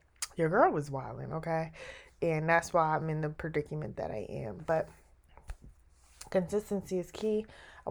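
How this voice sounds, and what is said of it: Voice sounds sick and under the weather. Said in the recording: “I don't know if y'all can tell by my voice. I'm a little under the weather”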